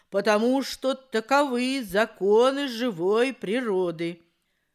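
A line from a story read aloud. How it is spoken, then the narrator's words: Stern, old crow. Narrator (Russian): строго ответила старая ворона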